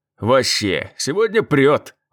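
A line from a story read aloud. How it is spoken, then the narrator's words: Laughing. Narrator (Russian): засмеялся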